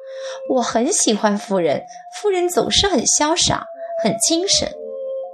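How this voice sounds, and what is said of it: Bright, cheerful voice. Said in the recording (Chinese): “用明快的声音说”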